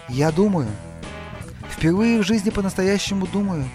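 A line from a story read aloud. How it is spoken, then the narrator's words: Whisper. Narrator (Russian): прошептал он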